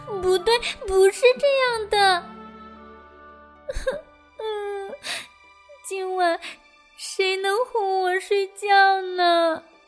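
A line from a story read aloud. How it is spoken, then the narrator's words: Crying out. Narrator (Chinese): 维尼哭喊着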